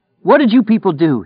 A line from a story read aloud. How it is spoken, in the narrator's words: he shouted